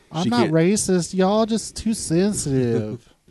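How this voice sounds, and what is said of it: Exaggerated Southern US accent. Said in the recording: “She had this super Southern accent. ... That's how she talked.”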